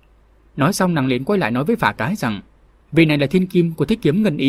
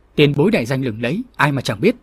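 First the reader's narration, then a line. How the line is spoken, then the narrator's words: Shrill youthful voice. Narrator (Vietnamese): Thiếu niên nọ với giọng lanh lảnh nói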